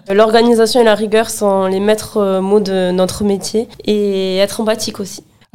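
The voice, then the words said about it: Sing-song southwestern French accent. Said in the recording (French): “quand je t'écoute, j'entends chanter. C'est très agréable. ... ce petit accent chantant ... Du sud-ouest, à une heure de Toulouse.”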